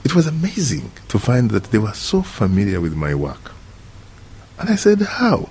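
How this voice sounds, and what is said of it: Retained foreign accent and intonation. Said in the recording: “you have never lost your accent, your tonation”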